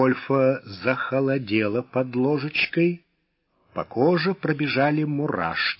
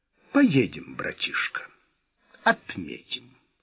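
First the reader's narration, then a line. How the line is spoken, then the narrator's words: Calm reply. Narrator (Russian): спокойным тоном ответил Вольф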